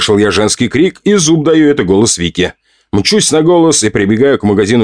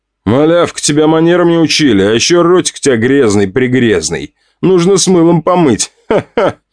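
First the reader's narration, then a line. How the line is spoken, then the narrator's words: Smug laughing aristocrat. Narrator (Russian): Смеялся аристократ, ощущая превосходство над маленькой девушкой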